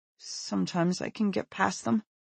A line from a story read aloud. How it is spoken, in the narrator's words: he says, his voice quavering